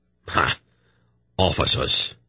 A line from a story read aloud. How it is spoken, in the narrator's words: Breck spat